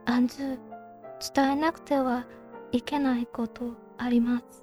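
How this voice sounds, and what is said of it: Whispering voice. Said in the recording (Japanese): “ささやくように言った”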